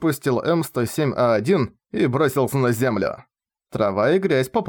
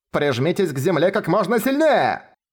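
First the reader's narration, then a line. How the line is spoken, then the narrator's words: Shouting. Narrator (Russian): прокричала Питоху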